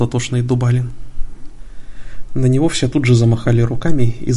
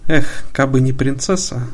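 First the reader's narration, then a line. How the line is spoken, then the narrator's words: Sigh. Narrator (Russian): вздохнул Милимон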